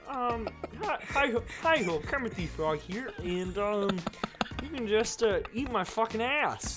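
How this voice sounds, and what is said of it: Kermit the Frog character voice. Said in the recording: “your impression ... my most favorite Kermit impression”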